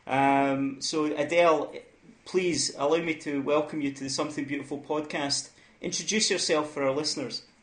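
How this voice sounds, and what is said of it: Scottish accent, formal English. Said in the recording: “that Scottish accent with the Queen's English is very well together.”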